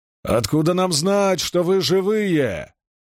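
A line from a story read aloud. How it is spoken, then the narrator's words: Distant hoarse shout. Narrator (Russian): прокричал со стены хриплый голос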